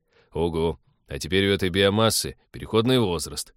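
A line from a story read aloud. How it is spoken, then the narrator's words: Gloomy joke. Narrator (Russian): мрачно пошутил Станислав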